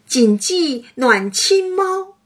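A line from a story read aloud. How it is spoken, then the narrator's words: Laughing, loud shout. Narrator (Chinese): 黛玉笑得握着胸口，高声嚷道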